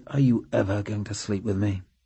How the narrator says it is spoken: With his lips almost against her ear, he murmured

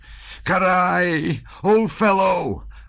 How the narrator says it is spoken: wailed Nicholas

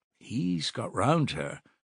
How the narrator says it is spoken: Nastasya murmured, smiling slyly

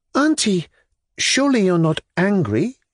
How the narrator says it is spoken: she faltered, with a sort of flippant playfulness

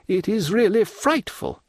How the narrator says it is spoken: cried Madame de Villefort

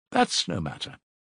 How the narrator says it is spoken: answered Porfiry Petrovitch, coldly

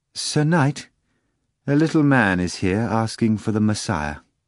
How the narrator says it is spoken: the maid said hesitantly

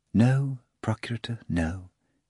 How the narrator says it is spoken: Afranius replied very soothingly

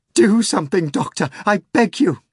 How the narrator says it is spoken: cried hysterically

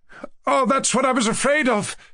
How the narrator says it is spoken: cried Mushkin

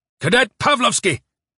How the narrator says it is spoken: he barked at the bugler

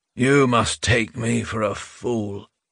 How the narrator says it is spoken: Rubin said sleepily

